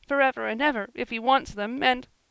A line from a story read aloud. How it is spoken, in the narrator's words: said Joel, whimpering